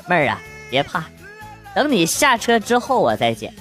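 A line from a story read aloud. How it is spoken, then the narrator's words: Calm, smiling. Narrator (Chinese): 哥淡定一笑，跟他说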